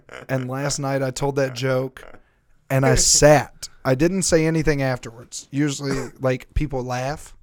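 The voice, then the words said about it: Accent that drops hard R sounds. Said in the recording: “with this accent I can't say anything that ends in a hard R”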